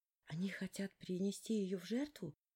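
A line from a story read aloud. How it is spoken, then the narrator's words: Whispered question. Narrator (Russian): я шепотом спросила у Хантера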